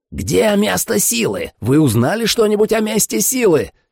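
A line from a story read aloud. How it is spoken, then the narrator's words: Yelling. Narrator (Russian): заорал Майерс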